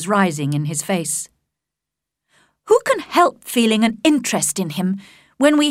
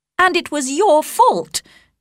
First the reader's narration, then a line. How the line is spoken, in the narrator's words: cried Elizabeth with energy